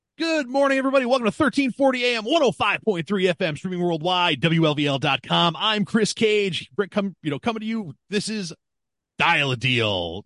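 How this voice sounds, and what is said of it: Animated radio announcer voice. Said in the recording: “radio voice ... you're just a little bit more animated”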